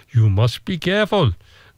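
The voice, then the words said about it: Put-on Indonesian accent. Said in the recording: “That's my Indonesian accent's very good, isn't it?”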